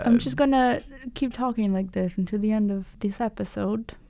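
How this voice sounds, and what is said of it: Put-on British accent. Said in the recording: “can you speak in a British accent? ... Yes, I can. ... I sound ridiculous.”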